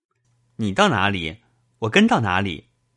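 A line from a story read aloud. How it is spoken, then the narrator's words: Laughing. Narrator (Chinese): 宝玉笑道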